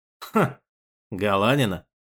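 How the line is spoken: Snorted. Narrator (Russian): хмыкнул Лаврик

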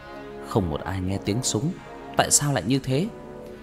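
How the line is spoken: Muttering. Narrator (Vietnamese): Cậu ta lẩm bẩm

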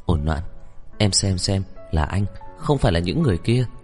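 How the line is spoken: Gentle question. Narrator (Vietnamese): dịu dàng hỏi

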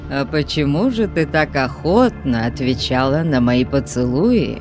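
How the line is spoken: Mocking question. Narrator (Russian): насмешливо спросил кемериец

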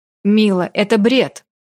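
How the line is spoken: Sharply cut off. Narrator (Russian): Резко оборвал меня Рай

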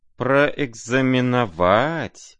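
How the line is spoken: Drawn-out drawl. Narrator (Russian): протянула генеральша

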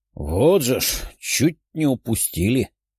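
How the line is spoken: Grumbling. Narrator (Russian): проворчал последний вошедший человек

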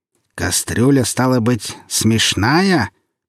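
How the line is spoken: Menacing repetition. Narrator (Russian): повторил Градус уже грозно

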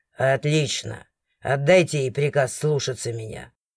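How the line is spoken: Displeased deep voice. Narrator (Russian): Недовольным голосом пробасил

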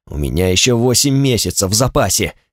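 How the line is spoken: Angry. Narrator (Russian): сказал я зло

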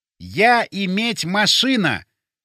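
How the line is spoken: Loud, deliberate, syllable by syllable. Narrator (Russian): громко и раздельно проговорил я

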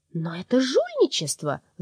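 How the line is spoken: Shrill squeal. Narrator (Russian): взвизгнула продажная душа

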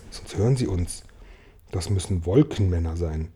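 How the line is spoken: Whispered. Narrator (German): flüsterte James

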